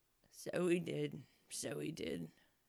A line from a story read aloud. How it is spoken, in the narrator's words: said the Gryphon, sighing in his turn